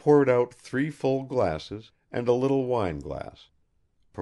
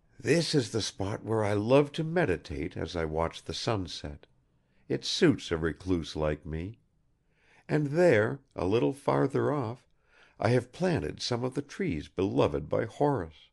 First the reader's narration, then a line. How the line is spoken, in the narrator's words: he whispered to Arkady